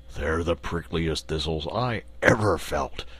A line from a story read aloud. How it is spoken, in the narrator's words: grumbled the Lion